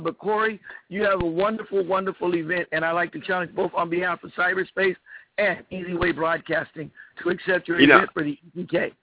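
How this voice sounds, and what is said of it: Slightly hoarse voice. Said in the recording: “I'm a little bit hoarse because we were out all night”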